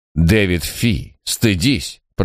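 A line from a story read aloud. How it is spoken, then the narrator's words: Mild fatherly rebuke. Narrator (Russian): промолвил его отец, не слишком строго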